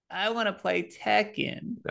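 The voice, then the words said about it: Imitates another person's voice. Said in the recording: “you did my voice perfect”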